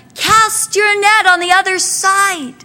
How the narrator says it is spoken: And the voice cried out

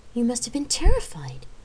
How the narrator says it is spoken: Jamie cried

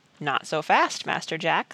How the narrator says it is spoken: said Praiseworthy

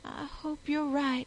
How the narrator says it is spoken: she breathed timidly

